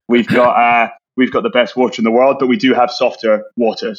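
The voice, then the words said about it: Scottish accent. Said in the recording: “You can probably tell by my slightly dodgy accent that I'm from Scotland.”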